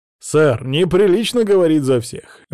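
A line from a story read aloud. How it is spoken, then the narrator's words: Amused chuckle. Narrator (Russian): весело усмехнулся судья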